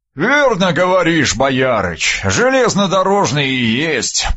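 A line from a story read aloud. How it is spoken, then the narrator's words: Booming drone. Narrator (Russian): прогудел он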